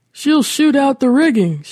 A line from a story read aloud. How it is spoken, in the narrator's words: shouted Curtis